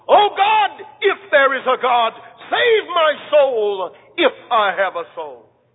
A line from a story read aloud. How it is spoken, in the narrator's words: Thistlewood cried out in his death throes